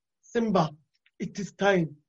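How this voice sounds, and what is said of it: Amateur put-on accent. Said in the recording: “I'm working on my accents. They're not good yet, but they're gonna get better.”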